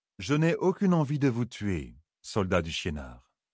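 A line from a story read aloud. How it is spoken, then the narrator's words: Calm. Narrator (French): dit-il calmement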